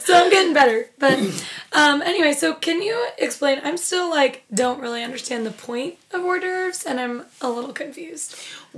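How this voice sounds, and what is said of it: Raspy, recovering hoarse voice. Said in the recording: “my voice was left in San Diego ... I apologize if I sound a little raspy ... Yesterday ... you didn't have a voice at all.”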